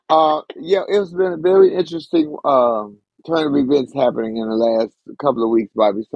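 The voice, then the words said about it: Heavy, weighed-down voice. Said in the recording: “my voice is a little heavy today. I need to take some weights off of it”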